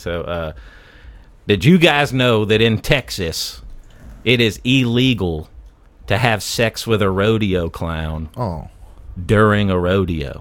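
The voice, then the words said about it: Put-on redneck voice. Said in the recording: “your redneck voice ... in this redneck voice.”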